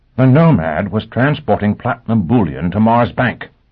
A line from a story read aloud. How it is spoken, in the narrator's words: Christine snapped